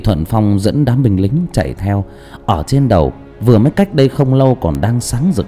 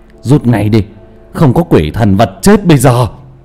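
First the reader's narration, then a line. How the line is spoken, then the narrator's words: Loud shout. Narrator (Vietnamese): Cao Biển hét lớn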